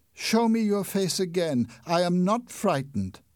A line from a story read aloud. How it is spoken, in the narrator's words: cried